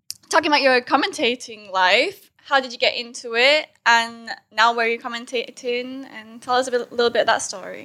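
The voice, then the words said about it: Mixed northern English and Californian accent. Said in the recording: “your accent's so messed up ... a little bit of north of England, hear a little bit of Manchester, a little bit of California coming out. All over the place.”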